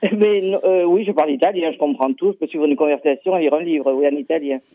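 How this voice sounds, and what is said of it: Southern French accent. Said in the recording (French): “l'accent du midi”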